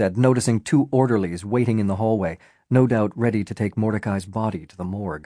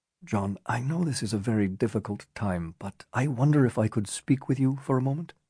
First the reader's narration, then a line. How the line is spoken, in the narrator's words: the Prime Minister whispered